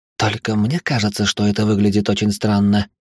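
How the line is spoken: Quiet question. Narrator (Russian): тихо спросила Лора

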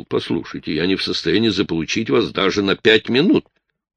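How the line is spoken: Offended. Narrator (Russian): Чарли обиженно заявил

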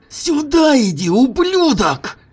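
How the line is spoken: Yelling. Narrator (Russian): заорал Джим

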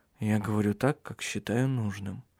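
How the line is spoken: Muttering. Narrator (Russian): пробормотал Тарья

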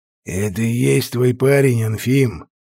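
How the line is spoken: Unpleasant growling voice. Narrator (Russian): прорычал довольно неприятный голос

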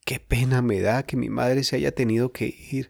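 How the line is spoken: Sudden sobbing. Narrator (Spanish): sollozó Jorge de pronto

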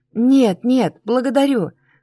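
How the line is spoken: Forced smiling. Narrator (Russian): выдавила улыбку

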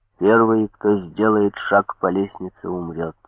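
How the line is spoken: Quiet. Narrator (Russian): сказал негромко

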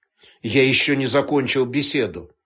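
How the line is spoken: Gloomy. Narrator (Russian): также мрачно произнес

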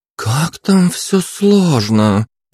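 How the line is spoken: Drawling. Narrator (Russian): протянула Элен

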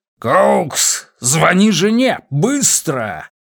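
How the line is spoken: Roar. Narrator (Russian): проревел Симмонс

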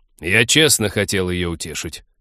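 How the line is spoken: Angry interruption. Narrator (Russian): сердито перебил друга Тед

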